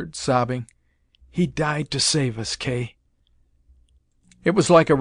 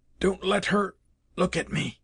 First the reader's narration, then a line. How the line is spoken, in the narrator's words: He whispered, absent inaudibly